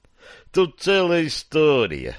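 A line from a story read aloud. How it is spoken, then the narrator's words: Sigh. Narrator (Russian): вздохнул Босл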